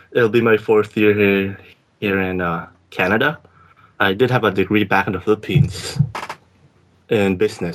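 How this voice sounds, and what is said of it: Filipino English accent. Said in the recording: “I'm a Filipino, as you can hear by my accent”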